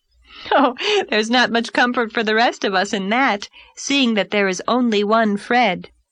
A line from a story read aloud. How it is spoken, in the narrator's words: laughed Anne